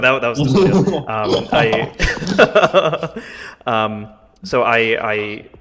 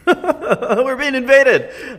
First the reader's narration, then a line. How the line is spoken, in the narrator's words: I kind of shout to Bats and say